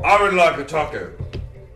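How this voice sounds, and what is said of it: Yelling loudly. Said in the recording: “Why are you yelling? ... Yeah, you have to yell it. ... Do not yell.”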